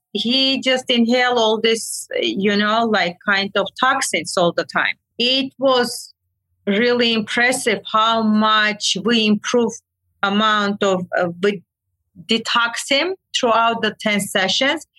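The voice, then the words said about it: Non-native English accent. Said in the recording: “My accent kills me.”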